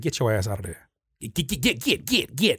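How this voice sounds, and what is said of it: Imitates a grandmother's scolding voice. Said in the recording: “grandma voice. I hear my grandma voice ... I try to hear my grandmother's voice say”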